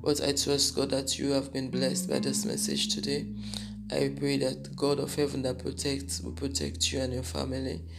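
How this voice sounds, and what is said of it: Husky, just-woke-up voice. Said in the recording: “Don't mind my voice. ... I just woke up, so my voice is a bit husky.”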